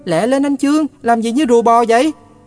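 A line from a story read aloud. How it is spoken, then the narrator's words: Impatient shout. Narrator (Vietnamese): Dế la lên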